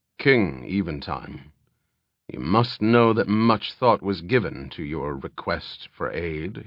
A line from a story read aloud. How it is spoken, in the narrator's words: he growled softly